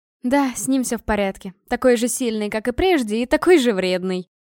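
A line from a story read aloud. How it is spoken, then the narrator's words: Laughing. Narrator (Russian): Рассмеялась она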